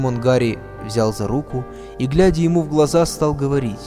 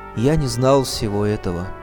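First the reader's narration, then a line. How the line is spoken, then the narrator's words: Sorrowful, wistful. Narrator (Russian): Учитель с тоской в голосе сказал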